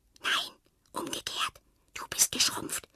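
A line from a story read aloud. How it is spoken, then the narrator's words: Whispering back. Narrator (German): flüstert Fred zurück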